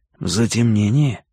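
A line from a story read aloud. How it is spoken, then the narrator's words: Whisper. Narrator (Russian): шепнул я Карадерсу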